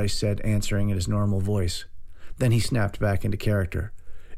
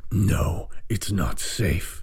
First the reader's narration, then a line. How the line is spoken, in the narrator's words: Master Bryce growled